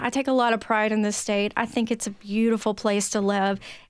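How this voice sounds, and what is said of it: Tennessee Southern twang accent. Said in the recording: “You can hear it in my accent, y'all. ... I can really let that twang come out if you want”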